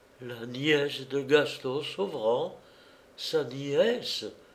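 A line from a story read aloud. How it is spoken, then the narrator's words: Stammering. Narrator (French): balbutia Florence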